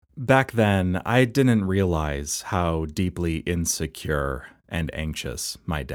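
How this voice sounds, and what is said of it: Usual voice. Nothing is said of it.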